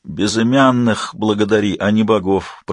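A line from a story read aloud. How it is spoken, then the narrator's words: Hoarse wheeze. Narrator (Russian): прохрипел Амлин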